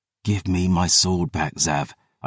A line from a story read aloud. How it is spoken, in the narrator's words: I hissed